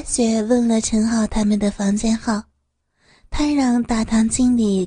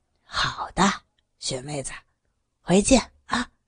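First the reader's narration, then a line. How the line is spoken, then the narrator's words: Low voice. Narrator (Chinese): 陈浩低声地说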